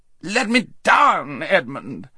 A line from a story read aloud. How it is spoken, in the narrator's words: howled Rabadash